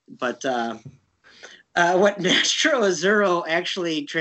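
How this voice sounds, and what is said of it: Usual voice. Nothing is said of it.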